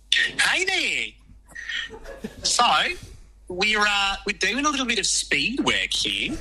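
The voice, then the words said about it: Put-on New Zealand accent. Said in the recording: “put on an amazing New Zealand accent.”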